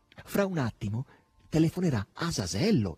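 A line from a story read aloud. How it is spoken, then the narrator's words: Exclaimed. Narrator (Italian): esclamò Margherita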